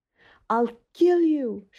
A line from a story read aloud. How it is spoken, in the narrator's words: she screamed